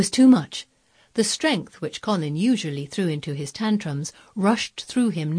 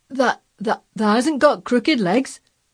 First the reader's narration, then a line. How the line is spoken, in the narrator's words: quavered Ben, more hoarsely yet